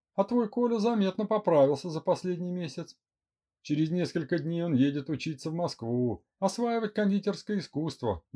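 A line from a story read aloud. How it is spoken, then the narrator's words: Cheerful giggle. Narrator (Russian): весело хихикнула Эля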